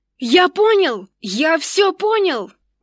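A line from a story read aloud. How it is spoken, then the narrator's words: Sudden yell. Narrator (Russian): Вдруг заорал Никсор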